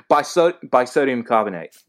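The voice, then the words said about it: Bad put-on British accent. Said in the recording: “you just do that British accent again. ... Yeah, that's probably horrible.”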